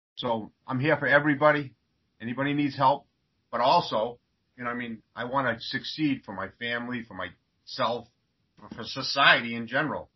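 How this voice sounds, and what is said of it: Boston accent. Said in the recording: “that Boston accent”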